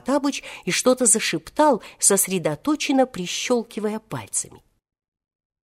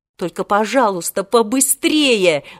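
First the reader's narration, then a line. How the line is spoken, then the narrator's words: Angry speech. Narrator (Russian): зло сказал Волька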